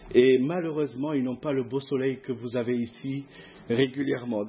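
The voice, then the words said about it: Regional southern French accent. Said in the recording (French): “vous allez l'entendre avec mon accent... j'ai perdu mon accent... Oh, tu viens pas d'ici, toi... il y a une différence dans l'accent... Ils ont un peu l'accent un petit peu plus pointu”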